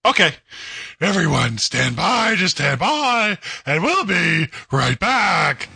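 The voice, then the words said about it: Gravelly Batman character voice. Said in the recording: “in your Batman voice”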